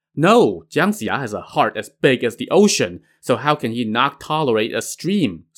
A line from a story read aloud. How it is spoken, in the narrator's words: Su Hu said